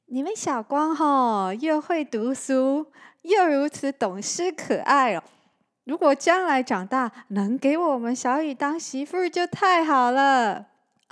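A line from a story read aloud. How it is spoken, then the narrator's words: Smiling, warm. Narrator (Chinese): 阿文笑着说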